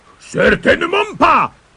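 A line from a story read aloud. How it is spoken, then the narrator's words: Monster roaring. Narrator (French): rugit le monstre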